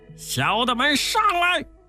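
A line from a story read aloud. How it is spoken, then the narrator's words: Shout. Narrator (Chinese): 辟寒大王喊了一声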